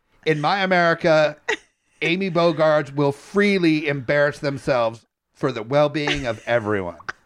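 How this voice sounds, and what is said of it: Imitates another person's voice. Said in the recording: “I don't even know what impression I'm doing anymore. I'm moving slowly into Jerry Seinfeld.”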